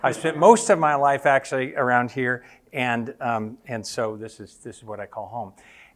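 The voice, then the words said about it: American accent. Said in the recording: “As you can tell by my accent, I'm American ... I just say I have an American accent”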